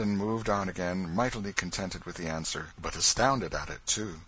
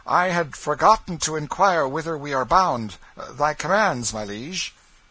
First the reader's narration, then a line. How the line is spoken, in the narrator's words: Hendon called out